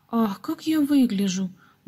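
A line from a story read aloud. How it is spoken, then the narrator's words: Sudden exclamation. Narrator (Russian): вдруг воскликнула Гизела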